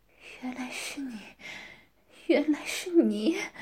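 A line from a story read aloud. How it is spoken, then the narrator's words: Stunned, dazed muttering. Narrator (Chinese): 先是一愣，继而想起了什么，脸色苍白，眼神呆滞，喃喃自语道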